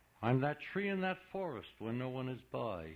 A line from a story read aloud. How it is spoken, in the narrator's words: he said